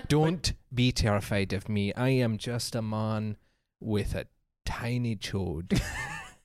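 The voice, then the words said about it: Put-on Scottish accent. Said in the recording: “Nothing like a Scottish accent. It's really up there with South African and German for as soon as there's any kind of aggression in the accent, it is terrifying.”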